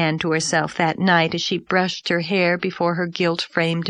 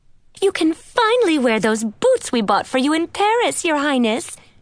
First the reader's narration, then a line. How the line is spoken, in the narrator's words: cried